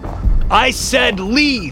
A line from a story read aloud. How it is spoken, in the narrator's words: shouted at the top of my lungs